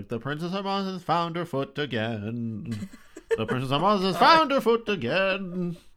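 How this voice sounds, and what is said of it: Sing-songy delivery. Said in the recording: “I'm imagining that very sing-songy”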